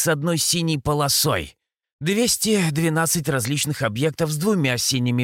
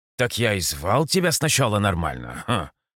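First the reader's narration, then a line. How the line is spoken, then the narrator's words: Scoffing snort. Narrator (Russian): хмыкнул я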